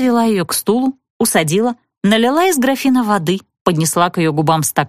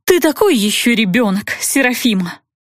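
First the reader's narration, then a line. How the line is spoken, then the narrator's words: Sigh. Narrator (Russian): С усилием проглотив воду, вздохнула Натали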